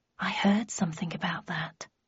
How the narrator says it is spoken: I murmured

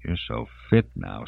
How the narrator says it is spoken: she said huskily

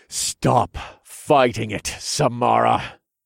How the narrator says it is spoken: I grunted

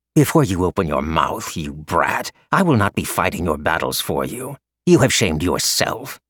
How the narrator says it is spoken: Li Wei snarled at the boy

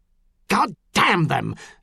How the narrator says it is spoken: Montal snarled

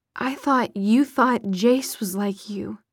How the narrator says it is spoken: said, finally in a choked voice

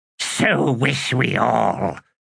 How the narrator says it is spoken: said in a rasp

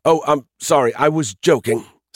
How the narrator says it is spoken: Skippy sputtered, embarrassed

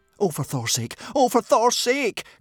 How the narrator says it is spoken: cried, looking desperately around him

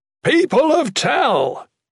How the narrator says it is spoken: Bernard shouted

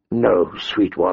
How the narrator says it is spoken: he murmured

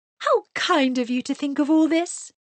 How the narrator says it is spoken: she cried

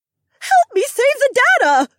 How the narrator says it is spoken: Susie squeaked

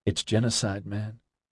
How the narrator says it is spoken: he said simply and quietly

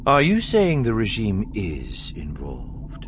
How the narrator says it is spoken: Thrawn asked coolly

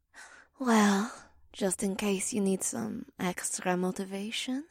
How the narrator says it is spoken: Daria purred

